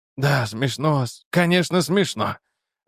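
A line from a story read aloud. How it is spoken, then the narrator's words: Sighing. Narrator (Russian): вздохнул Хобби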